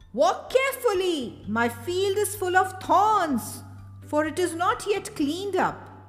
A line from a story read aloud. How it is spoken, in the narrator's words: The owner of the field was working and he called out to them